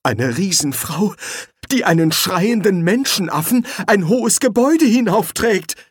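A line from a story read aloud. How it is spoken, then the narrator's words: Groaning. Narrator (German): stöhnte Schnapper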